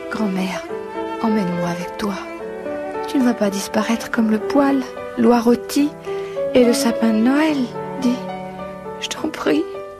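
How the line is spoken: Whispered by a little girl. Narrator (French): chuchota la fillette

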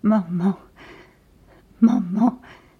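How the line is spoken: Moaning. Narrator (French): gémissait-il

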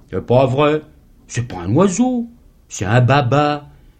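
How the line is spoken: Wonder-struck voice. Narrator (French): fit d'une voix émerveillée la pauvre Adèle

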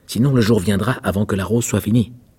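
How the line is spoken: Rosebush shouting. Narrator (French): cria le rosier

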